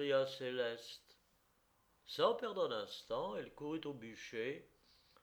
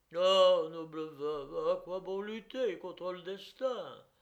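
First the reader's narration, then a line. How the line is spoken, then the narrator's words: Servant sighing. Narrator (French): dit le serviteur en soupirant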